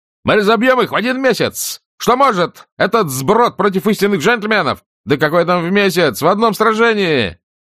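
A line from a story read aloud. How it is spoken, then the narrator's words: Repeated shout. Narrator (Russian): Стюарт Тарлтон выкрикнул в который уже раз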